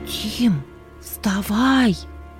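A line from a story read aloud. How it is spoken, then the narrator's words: Loud whisper, sister. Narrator (Russian): Громким шепотом будила брата сестра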